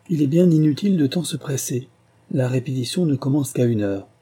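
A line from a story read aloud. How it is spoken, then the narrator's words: Exclaimed. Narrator (French): s'écria Maurice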